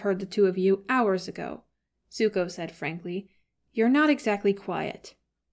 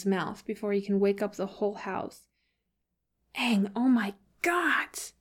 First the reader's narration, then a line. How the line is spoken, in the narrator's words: Sokka hisses